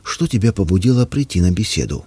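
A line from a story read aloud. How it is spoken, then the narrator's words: Gentle question. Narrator (Russian): Понимая, как ему тяжело, я мягко спросил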